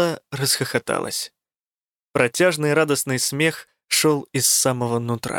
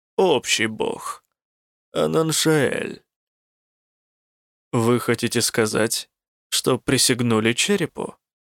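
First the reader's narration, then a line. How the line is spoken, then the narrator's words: Level, even voice. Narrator (Russian): ровным голосом уточнил Рук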